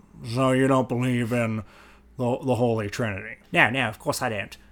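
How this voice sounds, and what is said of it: Richard Dawkins impression. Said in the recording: “worst Richard Dawkins impression ... No, it's really good.”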